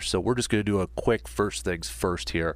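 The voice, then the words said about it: Congested, fading voice. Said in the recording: “losing my voice here, so if I sound a little congested”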